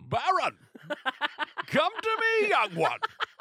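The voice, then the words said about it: Bane villain character voice. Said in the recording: “I might still do Bane the whole show”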